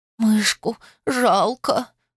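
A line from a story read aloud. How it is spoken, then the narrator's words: Sudden sniffling sob. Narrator (Russian): вдруг всхлипнула носом я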